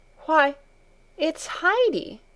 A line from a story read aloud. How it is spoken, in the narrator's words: she exclaimed